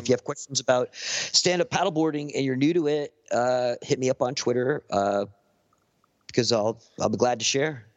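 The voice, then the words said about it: Soothing Southern Californian accent. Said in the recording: “It's fucking peaceful listening to your voice ... something about this, the Southern California dialect. It's soothing.”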